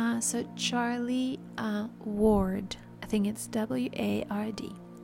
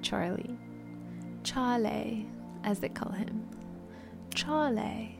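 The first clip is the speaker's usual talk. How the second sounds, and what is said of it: Attempted British accent. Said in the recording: “Trying to practice my British accent.”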